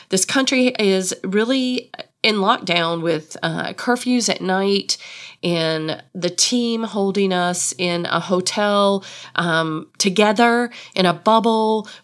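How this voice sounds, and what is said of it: Slightly stuffy, congested voice. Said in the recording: “I sound a little stuffy ... my nose sort of reacts to that COVID testing”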